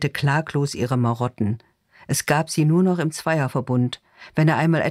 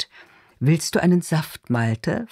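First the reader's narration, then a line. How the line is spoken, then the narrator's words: Gentle voice, simmering anger. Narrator (German): fragt sie mit sanfter Stimme, in der auf einmal ein leiser, kontrollierter Zorn zu brodeln scheint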